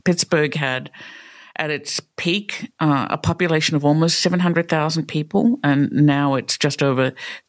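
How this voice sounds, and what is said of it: Australian accent. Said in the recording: “I don't have a Pittsburgh accent, right? So I grew up in Australia”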